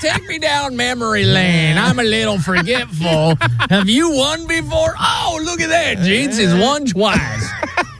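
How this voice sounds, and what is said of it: Put-on Southern accent. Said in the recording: “I don't know why I'm giving you a Southern accent.”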